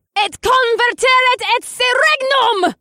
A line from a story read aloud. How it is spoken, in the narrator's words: Samara screamed